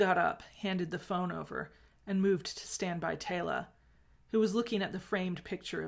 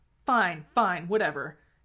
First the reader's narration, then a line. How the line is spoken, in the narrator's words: Rodney snapped